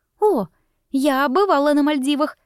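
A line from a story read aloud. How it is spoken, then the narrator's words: Excited exclamation. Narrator (Russian): воскликнула Лиза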